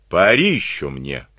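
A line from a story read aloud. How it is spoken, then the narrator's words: Rude. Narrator (Russian): грубо сказал он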